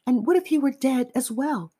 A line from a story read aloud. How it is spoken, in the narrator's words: I called out to him